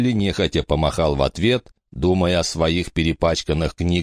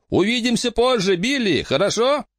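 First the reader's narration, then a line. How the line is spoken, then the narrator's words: Shouting. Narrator (Russian): Рики крикнул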